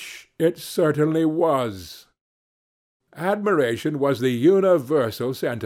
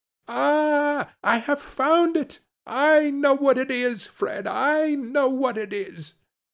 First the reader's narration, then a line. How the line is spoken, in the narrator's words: the plump sister, falling into a similar state, cried out